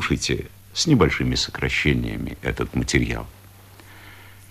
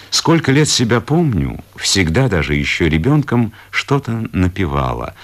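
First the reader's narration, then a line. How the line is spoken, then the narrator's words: Plain. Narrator (Russian): говорит Изабелла Даниловна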